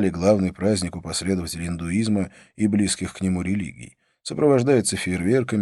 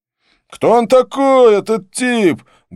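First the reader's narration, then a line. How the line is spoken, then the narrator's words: Loud question. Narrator (Russian): громко поинтересовался бородач, не обращаясь ни к кому конкретно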